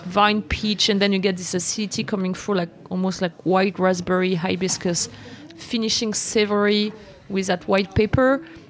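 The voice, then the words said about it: Strong non-native English accent. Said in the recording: “it's my super terrible accent.”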